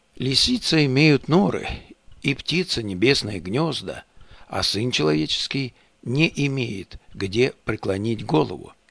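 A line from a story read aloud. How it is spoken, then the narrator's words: Warm, sincere voice. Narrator (Russian): Иисус Христос также сердечным и искренним голосом сказал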